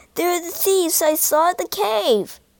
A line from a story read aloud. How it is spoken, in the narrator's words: he cried